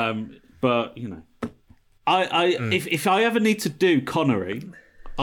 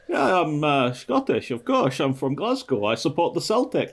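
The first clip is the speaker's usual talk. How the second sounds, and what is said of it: Scottish accent impression. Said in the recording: “can do the Scottish accent the best ... that's Connery.”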